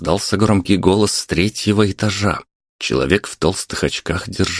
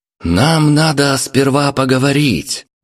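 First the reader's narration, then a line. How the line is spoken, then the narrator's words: Equally loud reply. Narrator (Russian): не менее громко отозвался Дмитрий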